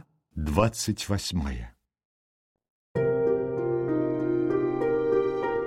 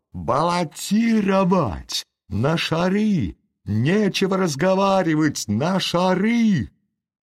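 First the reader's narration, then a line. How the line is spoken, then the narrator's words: Increasingly angry shouting. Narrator (Russian): заговорило несколько голосов, и высокий дворянин с перстнем, все более и более озлобляясь, кричал громче и громче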